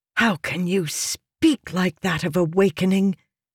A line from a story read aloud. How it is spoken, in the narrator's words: she hissed